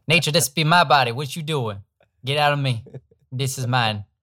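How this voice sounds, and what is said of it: Put-on accent. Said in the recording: “I always use that accent with nature.”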